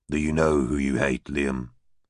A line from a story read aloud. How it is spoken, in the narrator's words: Greg asked quietly